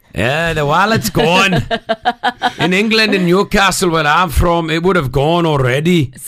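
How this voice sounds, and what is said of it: Put-on Newcastle accent. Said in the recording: “you can do the accent for it. They were from Newcastle.”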